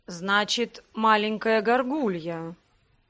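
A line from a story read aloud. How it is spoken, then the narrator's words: Drawling. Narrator (Russian): протянул Себастьян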